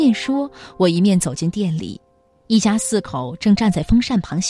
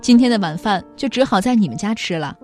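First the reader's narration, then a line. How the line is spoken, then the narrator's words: Laughing, teasing. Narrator (Chinese): 我也笑着和他打趣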